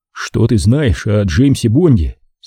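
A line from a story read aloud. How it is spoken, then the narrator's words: Plain. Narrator (Russian): спросил я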